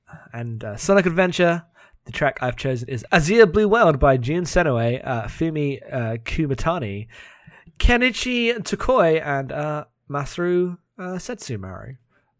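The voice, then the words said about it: British accent. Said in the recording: “my very British accent for these very Japanese names”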